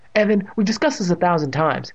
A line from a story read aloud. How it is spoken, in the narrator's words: his mother said impatiently